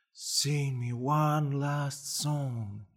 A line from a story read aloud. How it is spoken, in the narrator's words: he whispered